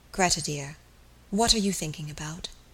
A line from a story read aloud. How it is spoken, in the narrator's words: he said softly